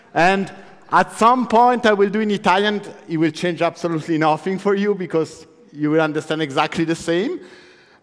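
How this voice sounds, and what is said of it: Italian-accented English. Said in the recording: “my super funny Italian accent ... I can do also in German with the same strange accent”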